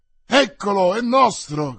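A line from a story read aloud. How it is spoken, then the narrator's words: Newcomers shouting together. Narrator (Italian): gridarono i sopraggiunti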